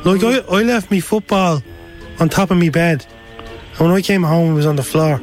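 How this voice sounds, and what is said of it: Hard-to-understand Irish accent. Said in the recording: “I'm in Dublin, in Ireland. ... Sorry, I'm having trouble understanding your accent.”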